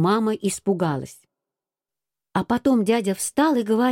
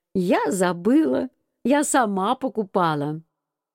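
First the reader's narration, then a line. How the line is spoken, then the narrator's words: Mother speaking laughing. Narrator (Russian): Мама тоже засмеялась и говорит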